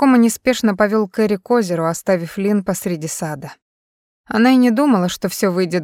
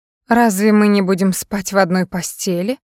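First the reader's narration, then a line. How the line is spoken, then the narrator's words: Hurt, trembling voice. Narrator (Russian): Лин позволила голосу обиженно задрожать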